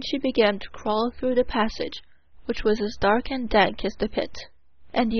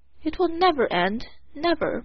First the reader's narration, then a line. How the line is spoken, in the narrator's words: moaned the officers